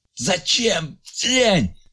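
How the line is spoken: Strained anguished shout. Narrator (Russian): крикнул Ильяс с надрывом

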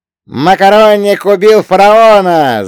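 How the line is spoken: Scream over gunfire. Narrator (Russian): завопил Фрэнки так, что его крик был слышно даже сквозь грохот перестрелки

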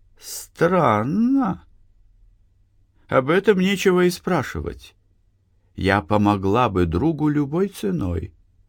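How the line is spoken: Calm reply. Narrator (Russian): спокойно ответила Капка

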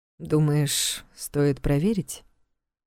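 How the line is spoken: Quiet question. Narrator (Russian): Так же тихо уточнил у нее Влад

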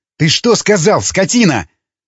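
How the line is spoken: Furious yelling. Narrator (Russian): заорал Ломака, готовый растереть Степана

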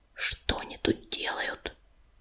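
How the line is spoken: Whispered. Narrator (Russian): он прошептал

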